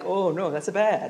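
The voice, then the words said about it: Poor accented impression of another person. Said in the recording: “my horrible Pope impersonation, and it's not even like appropriate for his nationality”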